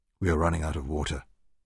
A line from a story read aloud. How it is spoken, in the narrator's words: Garry told her quietly